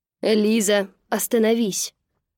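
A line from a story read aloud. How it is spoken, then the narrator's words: Commanding general's bark. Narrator (Russian): рявкнул генерал таким тоном, что, кажется, мертвые послушались бы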